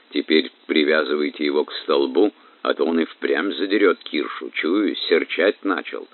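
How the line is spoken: Quiet. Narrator (Russian): Алексич тихо сказал дружинникам

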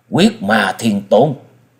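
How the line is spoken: Frightened blurted exclamation. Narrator (Vietnamese): Ngọc Hư đạo trưởng không khỏi bật thốt lên hoảng sợ nói

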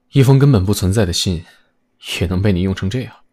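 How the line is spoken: Soft. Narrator (Chinese): 楼隐轻声道

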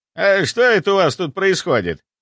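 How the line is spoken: Breathing hard. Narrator (Russian): Парень, громко дыша

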